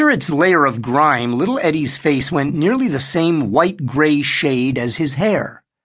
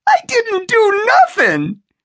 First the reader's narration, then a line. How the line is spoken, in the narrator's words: little Eddie wailed